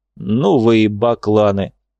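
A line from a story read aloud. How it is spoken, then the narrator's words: Rough bass voice. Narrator (Russian): проговорило дерево грубым басом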